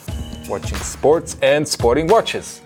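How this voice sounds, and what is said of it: American sportscaster accent. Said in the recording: “practicing his American sportscaster accent”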